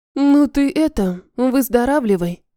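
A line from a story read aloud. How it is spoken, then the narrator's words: Sour voice. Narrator (Russian): произнесла я кислым голосом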